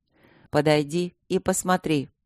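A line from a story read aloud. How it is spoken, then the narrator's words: Plain. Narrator (Russian): сказал повелитель Инляндии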